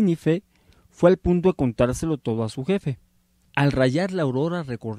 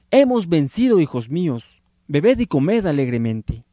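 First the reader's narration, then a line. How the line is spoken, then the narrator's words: Exclaiming. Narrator (Spanish): Los reyes exclamando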